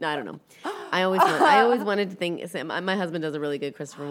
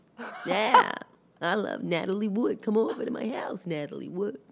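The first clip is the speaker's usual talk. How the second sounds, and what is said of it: Christopher Walken impression. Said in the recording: “an impersonation?... I'm Christopher Walken... It's a cadence thing.”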